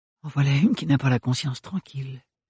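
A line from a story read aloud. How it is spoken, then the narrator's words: Murmured. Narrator (French): murmura Ophélie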